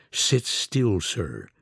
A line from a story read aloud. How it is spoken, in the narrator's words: young detective whispered through immobile lips